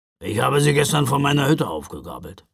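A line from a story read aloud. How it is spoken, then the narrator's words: Grumbling mutter. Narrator (German): brummte Knecht Ruprecht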